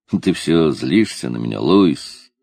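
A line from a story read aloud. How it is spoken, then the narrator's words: Anxious, troubled tone. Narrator (Russian): сказал он так, будто это обстоятельство не давало ему спокойно жить, будто для него важнее всего было узнать, что Луис больше не сердится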